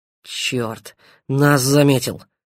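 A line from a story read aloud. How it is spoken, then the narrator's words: Grumbled mutter. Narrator (Russian): буркнул Павел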